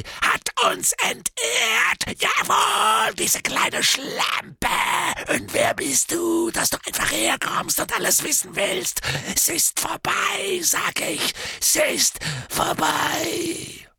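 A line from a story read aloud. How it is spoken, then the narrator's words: Scream. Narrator (German): Er schrie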